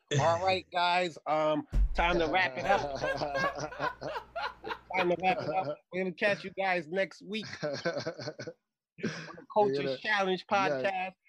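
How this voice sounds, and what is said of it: Impression of the host. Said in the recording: “my best Mike impersonation.”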